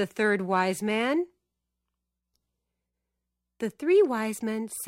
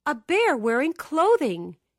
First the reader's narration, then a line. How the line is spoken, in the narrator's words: exclaimed the second wise man